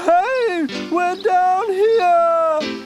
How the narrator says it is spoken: Jasper howled

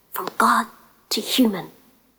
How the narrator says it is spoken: she whispered

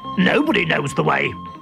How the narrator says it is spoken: growled Boga

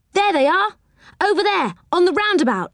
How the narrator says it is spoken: cried Joe

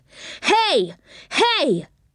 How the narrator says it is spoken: he cried angrily

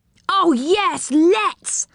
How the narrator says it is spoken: cried Rick

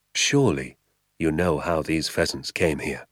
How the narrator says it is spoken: he said softly

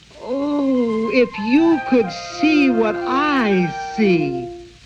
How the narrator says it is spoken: Molly sang out in a high, clear voice

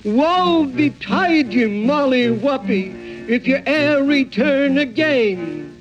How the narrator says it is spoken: he shook his fist at her and shouted across the great chasm

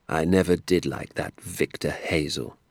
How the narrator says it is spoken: Doc Spencer said

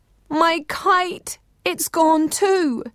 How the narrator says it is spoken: woke with a start, each one wailing

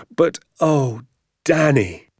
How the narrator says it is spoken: he cried

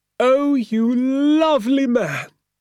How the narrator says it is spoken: cried Mrs

